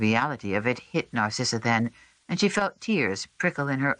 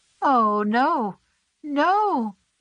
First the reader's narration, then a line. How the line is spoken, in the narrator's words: the woman moaned